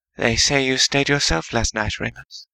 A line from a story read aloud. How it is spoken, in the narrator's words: she murmured